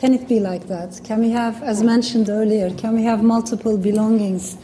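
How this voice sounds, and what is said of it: Non-native English accent. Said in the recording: “as you can hear in my accent, the words I can never pronounce properly... English is not my mother tongue”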